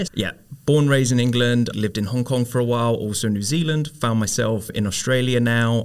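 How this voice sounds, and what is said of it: English accent. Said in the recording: “there's a bit of an English accent in here.”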